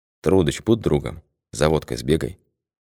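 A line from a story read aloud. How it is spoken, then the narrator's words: Quiet request. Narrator (Russian): тихо попросил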